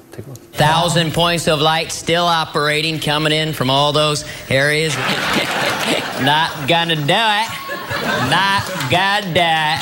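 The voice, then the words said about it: Dana Carvey's George H.W. Bush impression. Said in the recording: “I based my George Bush impression on Dana Carvey's ... That's the greatest presidential impression that's ever been done on Saturday Night Live”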